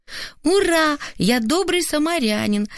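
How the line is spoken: Son's joyful shout. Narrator (Russian): радостно крикнул сын

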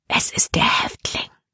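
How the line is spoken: Whisper. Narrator (German): flüsterte sie Caleb zu

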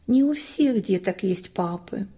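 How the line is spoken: Sad, smiling mother. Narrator (Russian): Мама грустно улыбалась и отвечала

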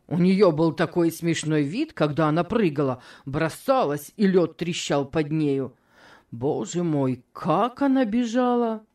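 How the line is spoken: Laughing to tears. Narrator (Russian): хохотать до того, что слезы текли

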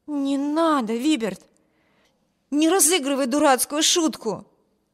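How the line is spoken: Exclaimed. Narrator (Russian): воскликнула Эми

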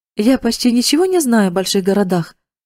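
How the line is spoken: Plain. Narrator (Russian): сказала она

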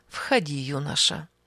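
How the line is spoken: Affectionate. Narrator (Russian): сказала ласково

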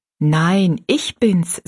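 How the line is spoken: Plain, girl's voice. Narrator (German): sagte das Mädchen

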